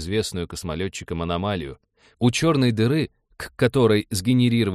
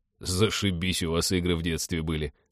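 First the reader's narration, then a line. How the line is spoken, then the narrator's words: Muttering. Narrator (Russian): пробормотал Тед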